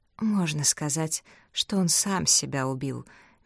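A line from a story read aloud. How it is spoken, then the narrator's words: Sighing. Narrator (Russian): мисс Марпл вздохнула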